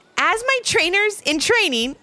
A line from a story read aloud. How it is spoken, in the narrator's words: Becca giggled